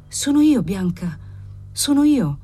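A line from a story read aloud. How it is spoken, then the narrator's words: Murmuring. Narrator (Italian): mormorò il marchese Cavalcanti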